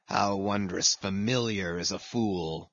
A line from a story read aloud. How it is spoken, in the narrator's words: muttered Ahab